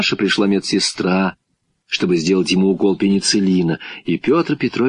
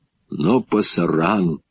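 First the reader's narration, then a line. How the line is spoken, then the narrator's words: Very quiet old man. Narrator (Russian): старик-испанец тихо-тихо сказал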